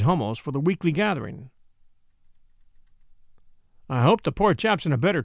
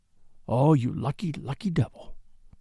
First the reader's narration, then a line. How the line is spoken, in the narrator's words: he whispered